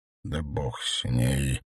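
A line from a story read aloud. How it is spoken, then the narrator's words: Barely audible mutter. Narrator (Russian): еле слышно пробормотал Радушкевич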